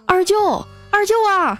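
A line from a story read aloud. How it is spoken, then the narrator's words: Calling out while chasing. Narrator (Chinese): 一路追着喊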